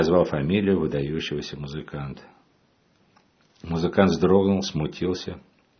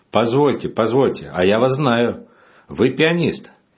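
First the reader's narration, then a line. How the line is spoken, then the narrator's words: Sudden exclamation. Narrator (Russian): вдруг воскликнул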